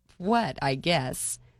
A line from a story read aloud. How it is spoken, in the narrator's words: Reuben laughed